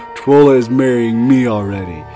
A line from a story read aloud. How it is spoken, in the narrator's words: he said with his voice was booming